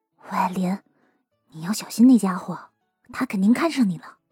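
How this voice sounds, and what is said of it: Quiet whispered warning. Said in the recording (Chinese): “向他小声的叮嘱了起来”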